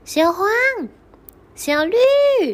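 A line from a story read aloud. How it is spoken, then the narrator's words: Two calling in unison. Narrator (Chinese): 小老鼠和小青蛙两个同一个时间喊起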